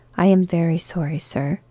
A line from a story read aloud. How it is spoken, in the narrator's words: said Bob